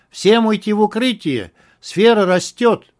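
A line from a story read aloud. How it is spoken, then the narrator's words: Shout from behind. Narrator (Russian): кто-то за спиной закричал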